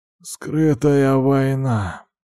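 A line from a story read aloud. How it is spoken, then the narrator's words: Hoarse. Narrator (Russian): ответил он хриплым голосом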